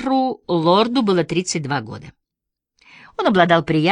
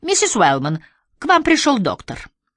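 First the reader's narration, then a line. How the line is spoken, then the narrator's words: Cheerful announcement. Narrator (Russian): рыжеволосая О'Брайен бодрым голосом объявила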